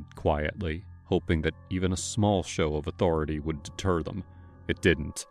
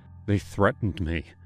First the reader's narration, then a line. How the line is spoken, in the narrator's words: I told him, my voice trembling